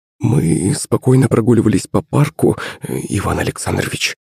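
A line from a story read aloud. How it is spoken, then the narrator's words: Nanny mumbling. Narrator (Russian): забормотала няня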